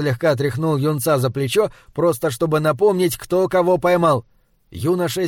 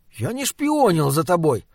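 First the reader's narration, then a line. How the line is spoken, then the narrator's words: Indignant. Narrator (Russian): сказал он возмущенно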